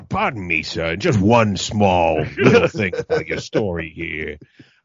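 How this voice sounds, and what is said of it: Columbo detective impression. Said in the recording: “you should have done it in your best Columbo impression.”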